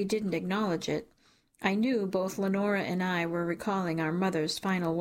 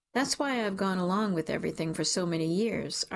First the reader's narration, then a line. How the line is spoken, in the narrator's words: Archie said